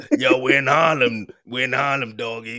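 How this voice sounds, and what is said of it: Zombie-like growling imitation voice. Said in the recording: “You sounded like a zombie. You know when a zombie's chasing you and you just hearing that noise? ... That's what he sounds like.”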